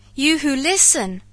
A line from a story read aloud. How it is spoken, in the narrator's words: I cried, shouting past him to the beast-men